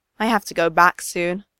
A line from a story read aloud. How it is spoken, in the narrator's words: Midoriya sighs